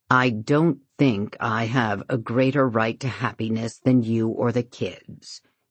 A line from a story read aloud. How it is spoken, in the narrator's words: he answers her stiffly